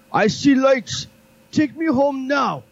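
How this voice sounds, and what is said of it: Poor imitation of a Russian man. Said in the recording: “my poor imitation of the Russian man”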